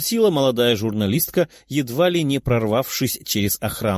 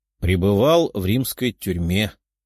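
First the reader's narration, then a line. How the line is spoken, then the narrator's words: Tired voice. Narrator (Russian): уставшим голосом ответил он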